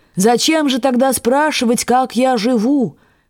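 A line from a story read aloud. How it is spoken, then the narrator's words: Shouting after someone. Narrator (Russian): кричала ему вслед Раневская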